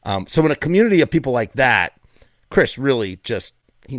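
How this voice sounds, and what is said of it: Usual voice. Nothing is said of it.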